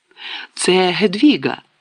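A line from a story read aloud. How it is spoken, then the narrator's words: Exclaimed. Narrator (Ukrainian): вигукнув Гаррі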